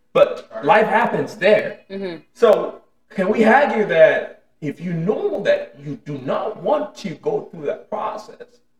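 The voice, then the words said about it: Speaks with a non-native accent. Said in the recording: “I'm sorry if I'm pronouncing it wrong, my accent”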